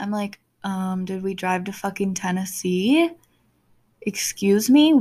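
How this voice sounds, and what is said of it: Usual voice. Nothing is said of it.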